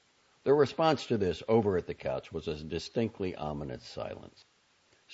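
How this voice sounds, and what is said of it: Usual voice. Nothing is said of it.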